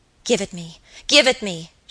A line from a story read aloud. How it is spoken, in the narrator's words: she cried